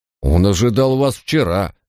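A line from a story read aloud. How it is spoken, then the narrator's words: Through gritted teeth. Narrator (Russian): процедил часовой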